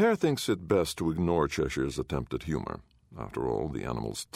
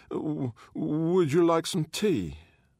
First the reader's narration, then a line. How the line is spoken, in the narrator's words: He stutters